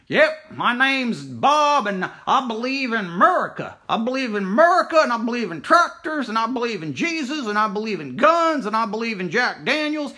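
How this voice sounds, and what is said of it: Thick put-on Southern accent, mocking. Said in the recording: “make a voice of, say, someone who sounds dumb, someone who sounds ignorant, someone who sounds foolish ... you'll go into a thick Southern accent”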